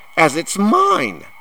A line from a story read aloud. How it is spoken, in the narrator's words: said Harry, furiously